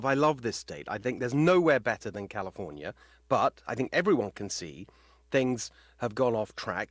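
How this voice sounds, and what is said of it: British English accent. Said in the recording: “People will hear from my accent. I'm originally from the UK.”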